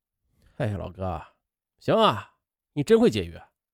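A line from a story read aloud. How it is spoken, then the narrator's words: Casual light remark. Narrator (Chinese): 他轻描淡写的感叹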